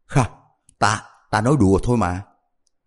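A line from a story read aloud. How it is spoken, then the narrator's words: Frightened, embarrassed laugh. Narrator (Vietnamese): Đại hắn này sợ tới cả người run rẩy, xấu hổ cười nói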